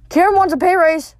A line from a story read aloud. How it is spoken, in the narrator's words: I blurted